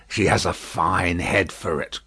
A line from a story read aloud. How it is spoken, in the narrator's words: croaked Jacques Three